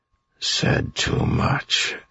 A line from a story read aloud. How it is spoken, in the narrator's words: he muttered, still shaking